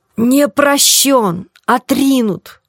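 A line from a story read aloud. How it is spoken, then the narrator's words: Muffled sobbing. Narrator (Russian): с глухим рыданием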